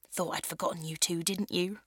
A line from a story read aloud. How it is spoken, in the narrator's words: She whispers in my ear with a cheeky smile